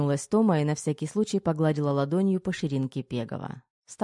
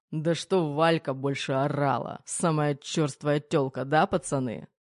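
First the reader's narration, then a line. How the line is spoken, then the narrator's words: Smirking snort. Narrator (Russian): хмыкнул Пегов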